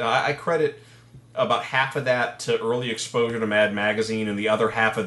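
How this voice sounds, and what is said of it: Usual voice. Nothing is said of it.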